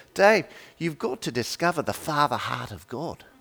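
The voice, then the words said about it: Put-on New Zealand accent. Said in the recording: “super impressed with my accents now ... I'm doing a pretty good Down Under accent”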